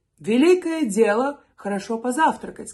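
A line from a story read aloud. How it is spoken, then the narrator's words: Plain. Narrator (Russian): сказал Гаррис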